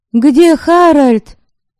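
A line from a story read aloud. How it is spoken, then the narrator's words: Shout. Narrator (Russian): крикнула она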